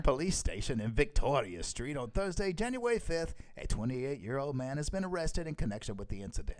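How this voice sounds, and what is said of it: Attempted Scottish accent. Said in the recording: “I really need to work on my Scottish accent. ... That was like, I don't know what was it when Scottish.”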